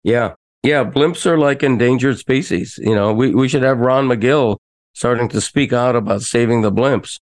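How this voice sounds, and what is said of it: Hoarse, deep, scratchy voice. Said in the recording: “is my voice sound weird? I feel hoarse... I feel like my voice is deep and scratchy and throaty.”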